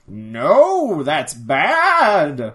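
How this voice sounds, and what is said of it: Imitates another person's voice. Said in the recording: “That's my Tom Baker impression. ... nailed it.”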